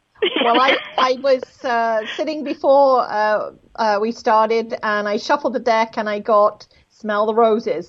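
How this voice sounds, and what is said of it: Speaks with a noticeable accent. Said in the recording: “I love the accent”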